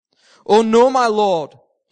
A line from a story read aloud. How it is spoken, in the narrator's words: he cried out